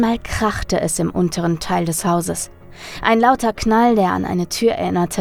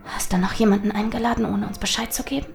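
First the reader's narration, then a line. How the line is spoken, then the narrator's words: Hissing. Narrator (German): zischte Charlotte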